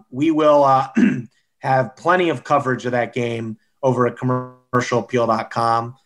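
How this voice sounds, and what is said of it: Strained, hoarse, fading voice. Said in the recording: “losing my voice”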